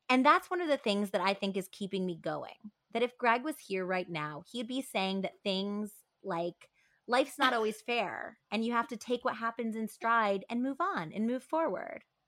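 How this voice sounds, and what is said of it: Flat New Hampshire accent imitation. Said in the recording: “She has like kind of a New Hampshire, very flat affect ... I'm not doing the accent any justice ... It does not sound like Pam Smart”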